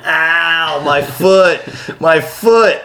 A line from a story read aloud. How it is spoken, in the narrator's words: like laughing at you